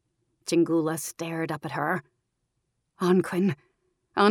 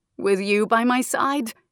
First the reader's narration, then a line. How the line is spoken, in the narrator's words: Anquin chuckled